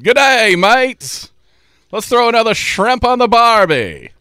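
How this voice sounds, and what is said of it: Put-on Australian accent. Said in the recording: “like an Australian accent”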